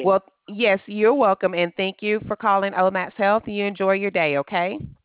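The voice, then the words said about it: Deep Southern American accent. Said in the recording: “you got a deep southern accent”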